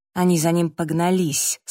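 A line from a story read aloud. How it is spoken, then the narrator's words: Through gritted teeth, about to explode. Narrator (Russian): сказал Сэм сквозь зубы, готовый взорваться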